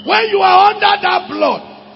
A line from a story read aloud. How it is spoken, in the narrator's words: he shouted